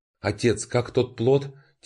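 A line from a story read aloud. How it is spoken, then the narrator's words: Soft whisper. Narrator (Russian): тихонько прошептала Мэнсюэ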